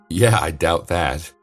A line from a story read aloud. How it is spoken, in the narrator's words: he forced himself to laugh and said